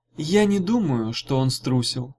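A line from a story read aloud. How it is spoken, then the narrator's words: Gentle. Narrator (Russian): мягко сказала Гелата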